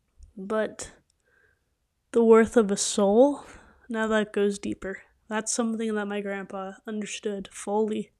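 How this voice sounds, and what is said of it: Emotional, choked-up voice. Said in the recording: “Sorry. Ugh. Get a little emotional with that.”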